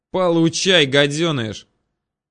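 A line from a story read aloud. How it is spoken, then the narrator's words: Yelled after cursing. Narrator (Russian): выругавшись, он заорал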